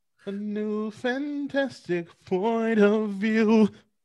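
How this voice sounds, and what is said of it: Sings in a put-on accent. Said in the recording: “Really, with the accent? With the accent?”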